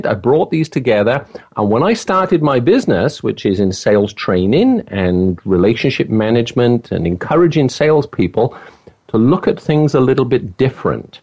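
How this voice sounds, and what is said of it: Welsh accent. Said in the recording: “if you go to Wales, where I'm from ... I have an accent”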